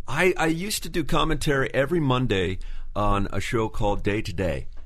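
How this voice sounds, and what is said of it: Smooth radio announcer voice. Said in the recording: “Have a wonderful radio voice. ... You really do.”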